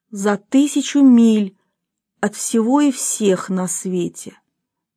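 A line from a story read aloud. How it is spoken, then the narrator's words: Calm inner thought. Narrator (Russian): спокойно подумал он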